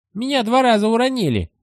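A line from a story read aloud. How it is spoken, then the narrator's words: Squeak. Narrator (Russian): пискнул Вонючка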